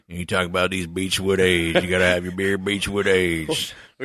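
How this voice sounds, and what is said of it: Put-on regional American accent. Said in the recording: “It gets confusing when you get that accent going ... It's real close. It's like Beechwood aged, and then you're like, Stater Jefferson. You got a little bigger dip in.”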